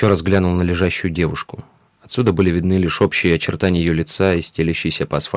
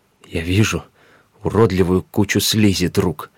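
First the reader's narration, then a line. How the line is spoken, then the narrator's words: Strained, forced words. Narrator (Russian): выдавил из себя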